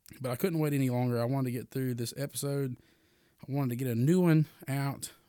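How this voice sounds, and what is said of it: Hoarse, sick-sounding voice. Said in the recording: “I've been battling some sickness, so you can actually hear it, and you can kind of tell I'm really hoarse”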